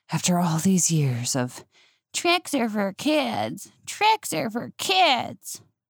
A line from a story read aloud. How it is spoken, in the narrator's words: gasps